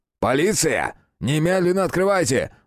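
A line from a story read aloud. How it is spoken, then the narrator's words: Loud booming shout. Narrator (Russian): зычно прокричал он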